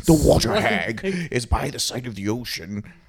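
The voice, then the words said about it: Bad put-on British narrator accent. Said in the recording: “That was a really bad David Attenborough. ... impression. ... Terrible. ... That was me if I were narrating BBC. ... Why would you put on right. a British accent?”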